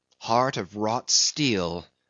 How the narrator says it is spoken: murmured Starbuck

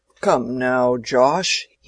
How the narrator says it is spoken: he was saying in a full, rumbling tone

